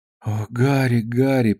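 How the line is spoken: Girl mumbling. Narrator (Russian): пробормотала девушка

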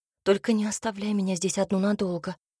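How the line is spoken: Desperate whisper. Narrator (Russian): шепнула она, отчаянно вцепившись в его рукав

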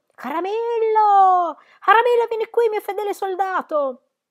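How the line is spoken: Terrible scream. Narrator (Italian): E dalla gola gli uscì un grido spaventoso

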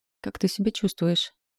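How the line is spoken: Sleepy mumble. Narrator (Russian): пробормотал он сонно

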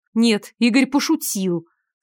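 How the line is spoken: Through gritted teeth. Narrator (Russian): сквозь зубы произнесла Наташа

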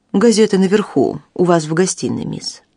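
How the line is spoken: Plain. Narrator (Russian): сказал

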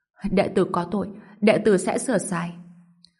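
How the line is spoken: Old monk weeping. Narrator (Vietnamese): Lão tăng khóc lóc

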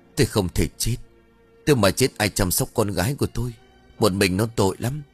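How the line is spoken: Trembling old woman's voice. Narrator (Vietnamese): Bà Thục, giọng run rẩy bảo

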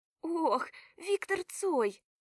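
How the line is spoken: Ecstatic squeal. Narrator (Russian): взвизгиваю восторженно

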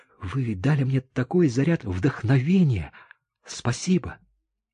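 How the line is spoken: Delighted whisper. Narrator (Russian): прошептала, сияя от восторга

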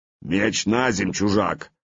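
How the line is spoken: Hoarse bass voice. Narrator (Russian): раздался за спиной Славки сиплый бас

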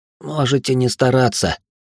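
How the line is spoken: Slurred hoarse reply. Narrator (Russian): с трудом ворочая языком, хрипло ответил я

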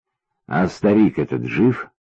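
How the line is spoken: Quiet question. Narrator (Russian): тихо спросил Паша

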